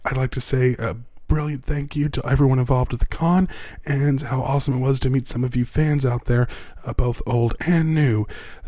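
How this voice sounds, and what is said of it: Hoarse, worn-out voice. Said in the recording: “my voice is completely shot from Comic Palooza this past weekend”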